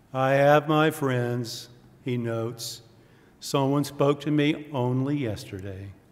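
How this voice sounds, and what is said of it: Gloomy cartoon donkey character voice. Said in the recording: “to do my Eeyore voice. I used to be pretty good at this. I'm a little out of practice.”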